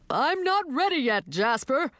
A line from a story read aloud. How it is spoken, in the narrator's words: yelled Fenton, still only halfway off his horse